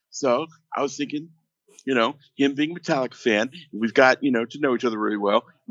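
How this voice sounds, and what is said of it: Imitates another person's voice. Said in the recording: “this is my Lars impression.”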